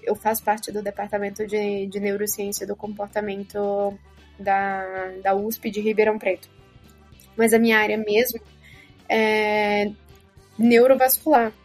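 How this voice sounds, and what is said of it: Potiguar Brazilian Portuguese accent. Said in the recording (Portuguese): “não estranhem o sotaque, eu sou potiguar e ele costuma florar nesses momentos”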